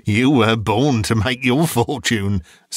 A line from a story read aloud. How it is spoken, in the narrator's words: said Joe